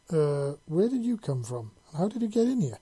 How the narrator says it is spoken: Ryan asked in a rather surprised voice

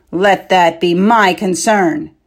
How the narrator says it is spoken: said harshly

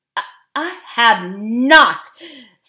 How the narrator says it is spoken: said Tyrion angrily

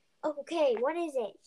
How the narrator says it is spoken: She asked while panting

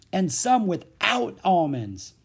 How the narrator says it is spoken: exclaimed Leffy

